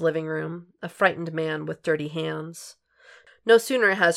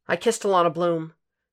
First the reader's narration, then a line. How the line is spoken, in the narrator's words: he blurts out